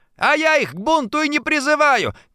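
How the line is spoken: Loud unafraid shouting. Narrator (Russian): кричал Антошин, уже не боясь привлечь внимание дежурного околоточного

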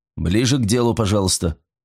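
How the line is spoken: Cold interruption. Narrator (Russian): холодно прервал его Файндхорн

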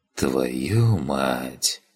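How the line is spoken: Whispered. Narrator (Russian): прошептал я

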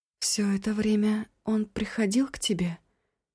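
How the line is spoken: Quiet question. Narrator (Russian): тихо спросила Эва

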